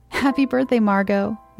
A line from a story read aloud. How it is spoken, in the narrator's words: my mother exclaimed, her smile widening